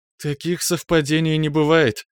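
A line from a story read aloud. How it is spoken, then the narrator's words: After laughing. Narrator (Russian): отсмеявшись ответила полувампирша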